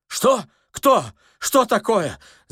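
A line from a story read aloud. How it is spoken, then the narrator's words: Anxious old man shouting. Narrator (Russian): закричал беспокойный старик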